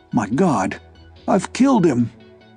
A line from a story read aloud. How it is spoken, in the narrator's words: gasped the old man